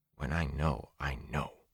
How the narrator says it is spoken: Min whispered obstinately

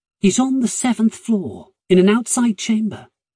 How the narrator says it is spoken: Maddie said

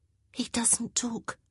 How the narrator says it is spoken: Agatha tugged on her sleeve and whispered

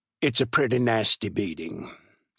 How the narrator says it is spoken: said gravely

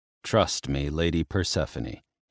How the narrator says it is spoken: he said, keeping his tone void of emotion

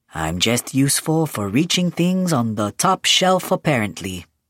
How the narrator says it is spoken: he said dryly

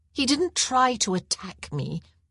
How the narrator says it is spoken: she replied

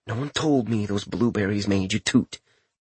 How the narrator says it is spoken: Richter simply ground his teeth before saying under his breath

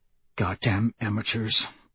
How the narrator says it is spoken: Trigg mutters

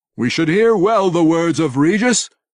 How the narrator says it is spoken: he declared loudly

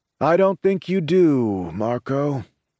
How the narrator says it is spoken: Angelo drawls

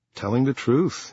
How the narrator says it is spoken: he said

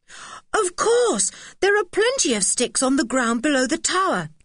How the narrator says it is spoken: cried Julian

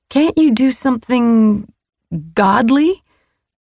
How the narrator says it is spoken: I sputtered

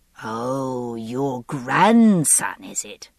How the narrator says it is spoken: Ellesmere's voice was slurred and sneering

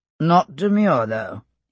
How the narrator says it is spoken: added, and made a low, chuckling noise

